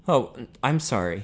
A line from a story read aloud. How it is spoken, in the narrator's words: he stammered